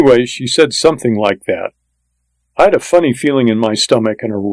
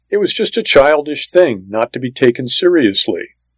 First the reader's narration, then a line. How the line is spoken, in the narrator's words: June Ellen's mother said quickly